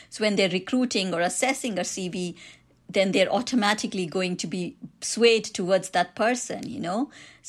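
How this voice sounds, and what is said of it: Indian accent. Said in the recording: “I've got an Indian accent”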